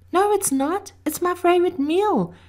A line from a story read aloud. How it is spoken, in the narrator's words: exclaimed the girl from the south